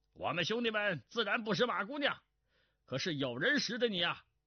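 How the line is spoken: Laughing. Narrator (Chinese): 道众中有人笑道

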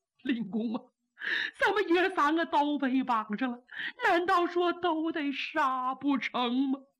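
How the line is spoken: Loud wailing sobs. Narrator (Chinese): 放声大哭

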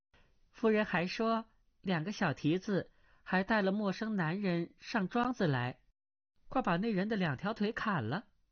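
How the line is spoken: Girl laughing. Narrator (Chinese): 小丫鬟幽草 向阿朱、阿碧笑道

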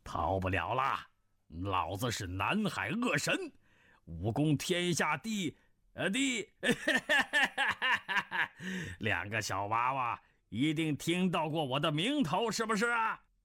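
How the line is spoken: Hearty laughter. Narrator (Chinese): 那人哈哈大笑，说道

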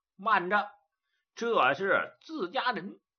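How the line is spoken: Loud shout. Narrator (Chinese): 焦雄高声喊

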